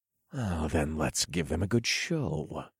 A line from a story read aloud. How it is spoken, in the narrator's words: I growled